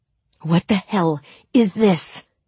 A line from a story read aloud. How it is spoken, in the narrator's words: he said, his voice low and dangerous